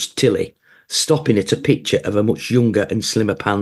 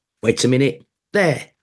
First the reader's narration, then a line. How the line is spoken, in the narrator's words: she said triumphantly